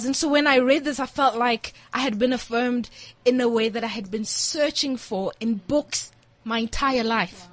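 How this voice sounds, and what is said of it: Emotional, voice welling up. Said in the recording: “I'm getting emotional.”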